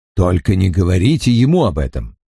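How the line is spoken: Snorting remark. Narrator (Russian): хмыкнул Лиц

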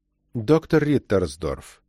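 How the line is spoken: Gentle. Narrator (Russian): мягко сказал он

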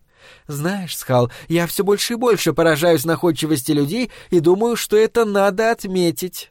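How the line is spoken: Cheerful female demon. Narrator (Russian): весело проговорила демоница

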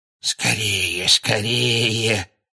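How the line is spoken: Hoarse muffled mutter behind door. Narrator (Russian): сипло бормотал кто-то прямо за дверью кабинета

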